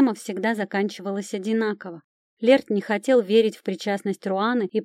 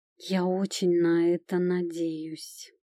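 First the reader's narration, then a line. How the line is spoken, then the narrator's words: Muffled reply. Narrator (Russian): глухо отозвался он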